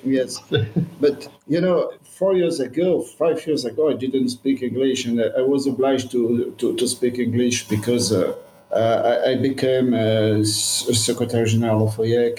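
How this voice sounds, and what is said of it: Non-native English accent. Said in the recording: “my English is not very good. And as you say, I have a bad accent”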